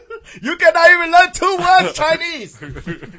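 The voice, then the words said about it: Mock Chinese accent imitation. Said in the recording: “That's the first time I've ever done a Jackie Chan impersonation. I am so ashamed that I could do a Chinese imitation.”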